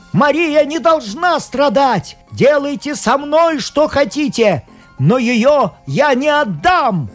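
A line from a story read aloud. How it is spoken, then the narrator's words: Shout. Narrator (Russian): он закричал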